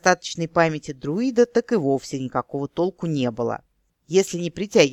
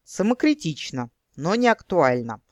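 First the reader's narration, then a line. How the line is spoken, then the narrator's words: Snorting. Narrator (Russian): хмыкнул Итхан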